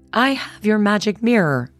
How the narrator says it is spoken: she cried

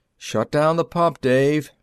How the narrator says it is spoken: Millard called out

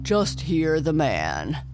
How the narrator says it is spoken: chuckled the fish

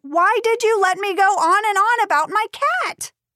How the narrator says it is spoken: Jenna yelled

